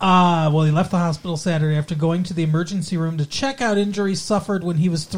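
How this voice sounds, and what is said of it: Usual voice. Nothing is said of it.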